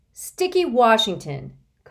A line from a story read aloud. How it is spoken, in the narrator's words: Constance shouted